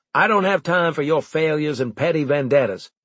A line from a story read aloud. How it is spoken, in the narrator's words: I yelled at him